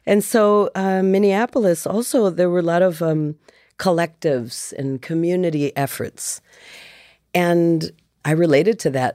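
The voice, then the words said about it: Slight Midwestern American accent. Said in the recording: “I hear the Midwest there. I'm from Wisconsin, so I can hear the little bit of that. ... She has a Midwest accent”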